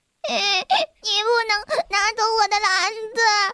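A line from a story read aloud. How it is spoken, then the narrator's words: Anxious wailing. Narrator (Chinese): 贝里奥急得大哭道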